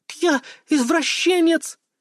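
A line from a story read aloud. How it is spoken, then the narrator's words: Frightened squeal. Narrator (Russian): Как в настоящем хентае взвизгнула тут она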